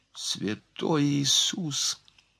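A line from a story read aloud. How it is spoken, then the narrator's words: Whisper. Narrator (Russian): прошептала Марианна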